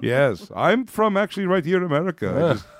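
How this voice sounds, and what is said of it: Put-on vampire accent. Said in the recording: “This is the vampire accent.”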